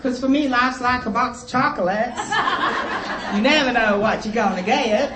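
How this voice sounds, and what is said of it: Weak attempt at American accent. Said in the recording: “Did I sound American just then? ... No. ... Good try. Better than last.”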